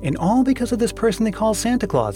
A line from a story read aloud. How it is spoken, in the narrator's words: exclaimed the demon of envy